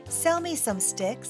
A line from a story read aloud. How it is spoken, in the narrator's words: said the pig